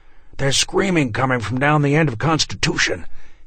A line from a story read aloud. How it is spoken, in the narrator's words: he gasped